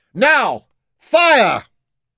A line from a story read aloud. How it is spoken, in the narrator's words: Jim shouted this